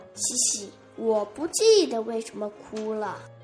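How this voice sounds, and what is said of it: Soft, small chirping voice. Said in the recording (Chinese): “小声叽叽道”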